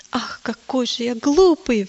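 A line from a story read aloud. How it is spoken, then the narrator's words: Sudden exclamation. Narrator (Russian): вдруг воскликнул он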